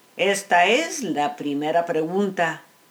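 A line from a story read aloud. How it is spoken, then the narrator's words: Plain. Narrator (Spanish): dijo el gobernador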